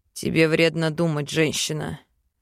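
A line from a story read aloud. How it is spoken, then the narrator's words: Growling. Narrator (Russian): рыкнул Вел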